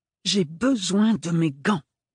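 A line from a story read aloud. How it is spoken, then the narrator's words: Hard insistent voice. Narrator (French): insista Ophélie d'une voix dure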